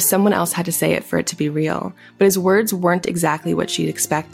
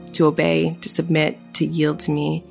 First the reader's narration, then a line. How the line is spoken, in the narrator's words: he said